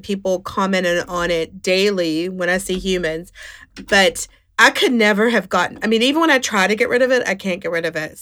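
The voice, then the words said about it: West Virginia accent. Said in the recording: “I'm from West Virginia and I still have that accent.”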